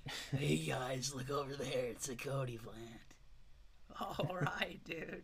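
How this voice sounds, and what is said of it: Surfer-dude character voice. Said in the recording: “The Triceratops has a surfer accent.”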